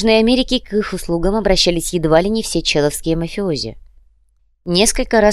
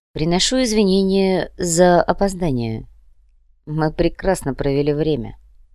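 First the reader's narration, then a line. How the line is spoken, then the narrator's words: Quiet reply. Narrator (Russian): негромко ответил Хосе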